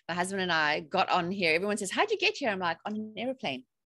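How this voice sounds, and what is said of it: South African accent. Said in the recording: “I have a bit of an accent. I'm originally from South Africa”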